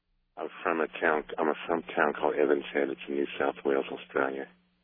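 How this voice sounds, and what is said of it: Mild Australian-English accent. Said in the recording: “this is a completely fake accent... this accent is almost entirely counterfeit... keeping it at what sounds like a deliberately low level”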